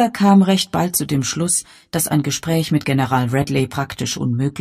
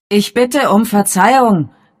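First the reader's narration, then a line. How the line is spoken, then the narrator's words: Loud voice. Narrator (German): sagte Father mit lauter Stimme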